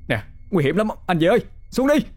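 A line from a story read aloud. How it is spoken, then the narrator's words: Panicked shouting. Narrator (Vietnamese): Nam hoảng hốt, miệng không ngừng la hét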